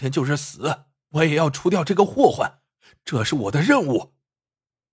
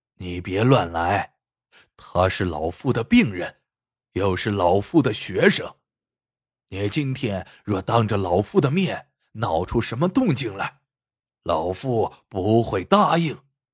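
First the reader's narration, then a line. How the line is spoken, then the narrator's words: Deep stern voice. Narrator (Chinese): 耿爷沉声道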